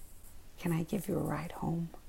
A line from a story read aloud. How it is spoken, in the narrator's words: Ryan kind of whispered